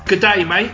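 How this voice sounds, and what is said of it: Australian accent. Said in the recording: “You sound dead Australian.”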